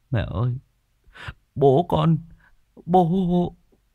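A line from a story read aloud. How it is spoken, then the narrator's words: Tearful whimper. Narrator (Vietnamese): anh Khiêm mếu máo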